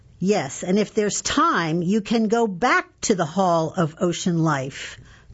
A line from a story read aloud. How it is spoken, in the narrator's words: Don said